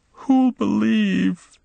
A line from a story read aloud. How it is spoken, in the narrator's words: she wailed